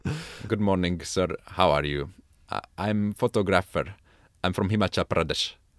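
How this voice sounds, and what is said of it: Put-on Indian English accent. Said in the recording (Hungarian): “indiaiak akcentussal angolul beszéltem nekik ... az indiai akcentusodról”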